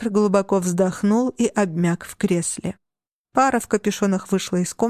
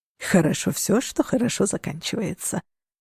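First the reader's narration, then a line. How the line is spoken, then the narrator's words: Purring. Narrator (Russian): промурлыкал Линус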